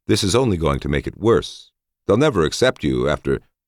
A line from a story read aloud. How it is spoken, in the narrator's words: I began calmly